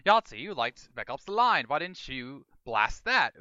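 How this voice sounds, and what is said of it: Badly done put-on accent. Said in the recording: “this is a terrible accent, I apologize”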